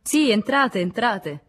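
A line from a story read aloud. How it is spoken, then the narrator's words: Shouted. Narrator (Italian): gridò Dubreuil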